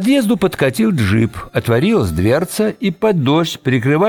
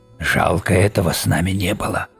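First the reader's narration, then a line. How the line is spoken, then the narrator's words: Whisper. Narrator (Russian): шепотом сказал Тедди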